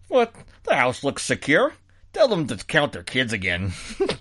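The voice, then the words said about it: Imitated Chicago accent, not very good. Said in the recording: “That's not a great Chicago accent”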